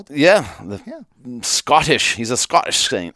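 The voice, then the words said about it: Put-on Scottish accent. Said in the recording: “that accent ... my Scottish accent ... something straight out of the Outlaw King”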